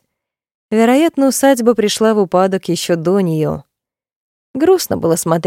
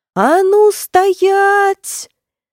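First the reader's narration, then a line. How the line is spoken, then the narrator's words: Distant yell. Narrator (Russian): Завопила я издалека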